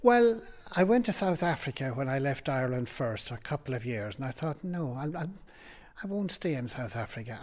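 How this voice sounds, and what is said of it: Irish accent. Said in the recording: “I was born in Cavantown in Ireland ... because I came as an adult, my accent has never changed.”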